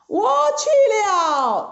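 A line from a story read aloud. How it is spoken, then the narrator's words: Shout. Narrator (Chinese): 孙悟空叫了一声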